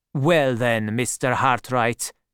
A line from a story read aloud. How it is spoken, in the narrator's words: said coldly